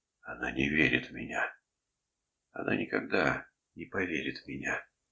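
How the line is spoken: Whispering to himself. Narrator (Russian): Фентон шептал про себя

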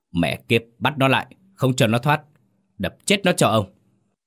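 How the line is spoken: Furious loud shout. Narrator (Vietnamese): ông Mừng quắc mắt quát to

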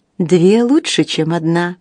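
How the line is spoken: Plain. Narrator (Russian): сказала она

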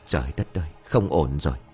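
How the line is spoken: Mumble. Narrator (Vietnamese): Thầy Quý miệng lẩm bẩm

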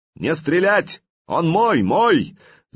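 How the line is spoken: Shouting. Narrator (Russian): закричал Олег

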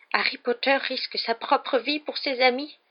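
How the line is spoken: Moaning in pitiful ecstasy. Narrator (French): gémit Dobby dans une sorte d'extase pitoyable

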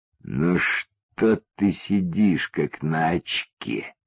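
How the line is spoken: Slow. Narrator (Russian): медленно сказал узкоглазый

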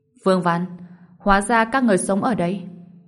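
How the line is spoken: Cold after stunned pause. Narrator (Vietnamese): Hạ Minh Ngọc cũng ngẩn ra, sau đó lạnh lùng nói

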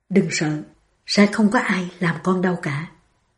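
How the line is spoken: Soothing whisper. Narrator (Vietnamese): Ông thì thào

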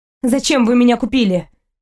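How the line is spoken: Angry question. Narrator (Russian): спрашиваю зло

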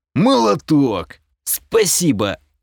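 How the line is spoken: Hoarse, smiling reply. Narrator (Russian): хрипло отозвался я, сохраняя улыбку

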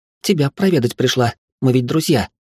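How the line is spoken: Snapped. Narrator (Russian): огрызнулась она

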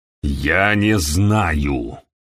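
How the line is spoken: Growling. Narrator (Russian): прорычал Хэдли

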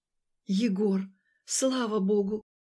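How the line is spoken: Exhaled. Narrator (Russian): Я выдохнула

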